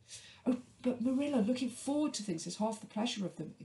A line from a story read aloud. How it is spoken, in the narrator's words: exclaimed Anne